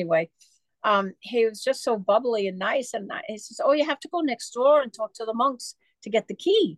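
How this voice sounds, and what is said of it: Usual voice. Nothing is said of it.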